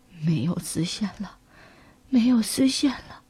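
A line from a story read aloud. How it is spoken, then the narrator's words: Feverish delirious mumbling. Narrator (Chinese): 可怜的老裁缝发起了烧，在昏睡中，他依然喃喃自语着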